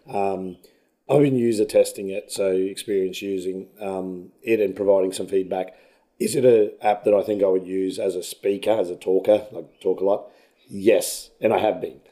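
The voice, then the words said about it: Hoarse, strained voice. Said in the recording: “sound like you're losing your voice. So it sounds like you've been thrashing it... I have lost my voice... shouting at kids”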